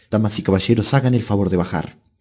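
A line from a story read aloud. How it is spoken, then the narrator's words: Curt, Alsatian-accented French. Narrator (Spanish): diciéndoles con tono seco y en un francés de alsaciano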